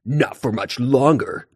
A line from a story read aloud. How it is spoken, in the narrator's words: Tiger Claw growled